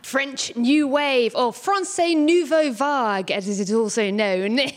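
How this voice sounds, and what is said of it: Strange put-on accent. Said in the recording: “I don't know why I'm talking in a strange accent, but I'm channeling my inner intellectual”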